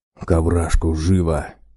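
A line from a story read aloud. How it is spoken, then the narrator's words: Bear hissing. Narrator (Russian): прошипел медведь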